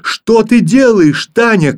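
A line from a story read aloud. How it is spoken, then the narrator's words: Frightened shout. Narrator (Russian): крикнул в испуге Филька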